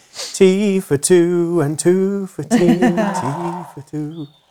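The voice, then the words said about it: Sings imitating a lady's singing voice. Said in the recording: “there's a lady here and she's singing. Forgive my voice, but this is how she's doing it”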